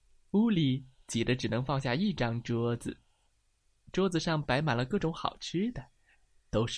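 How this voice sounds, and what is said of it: Usual voice. Nothing is said of it.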